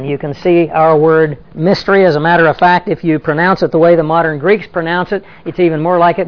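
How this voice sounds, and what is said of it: Southern accent with some Australian influence. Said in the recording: “That's Greek with a little bit of Southern accent and some Aussie influence”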